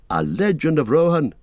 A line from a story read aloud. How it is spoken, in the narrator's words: cried Legolas